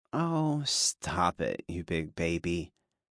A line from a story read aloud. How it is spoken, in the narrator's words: the woman on my back teased in her soft yet sultry voice